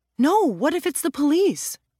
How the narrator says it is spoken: Ro exclaimed

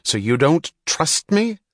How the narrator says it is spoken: snapped in answer to her first innocent questions

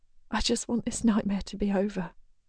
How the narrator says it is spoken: she whispers

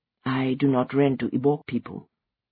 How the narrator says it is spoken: he said, softly

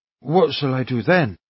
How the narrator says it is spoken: Alyosha asked naively

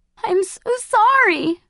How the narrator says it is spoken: sobbed the girl

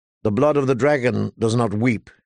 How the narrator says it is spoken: she said testily

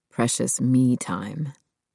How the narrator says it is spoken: Neil said softly

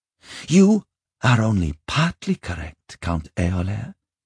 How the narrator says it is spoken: she said slowly

